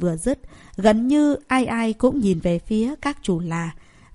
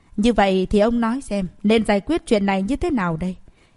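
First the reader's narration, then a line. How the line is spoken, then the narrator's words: Cold question. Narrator (Vietnamese): Cao Minh Lăng lạnh lùng hỏi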